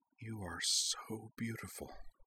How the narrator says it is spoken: Azana whispered

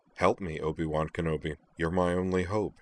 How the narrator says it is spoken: Zoner muttered to himself

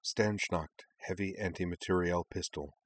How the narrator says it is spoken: the faintest of whispers said in the back of Kaname's head

